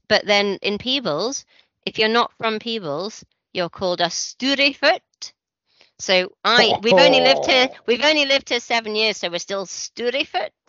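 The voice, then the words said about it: Aberdonian Scottish accent. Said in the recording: “born and bred Aberdonian, in my perfectly Aberdonian voice”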